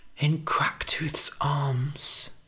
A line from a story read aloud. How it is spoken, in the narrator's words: whispered Billy